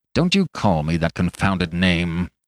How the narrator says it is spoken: growled Macfarlane

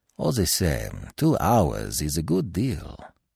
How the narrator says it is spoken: said Poirot softly

